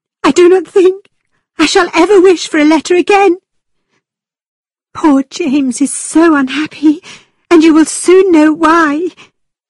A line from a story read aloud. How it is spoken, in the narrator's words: Catherine cried